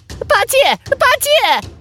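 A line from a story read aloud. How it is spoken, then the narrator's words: Urgent shouting. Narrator (Chinese): 孙悟空一边喊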